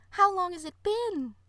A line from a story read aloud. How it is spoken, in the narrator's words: the first flower asked in a high voice